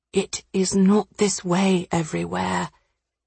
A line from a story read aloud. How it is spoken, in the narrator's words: he said softly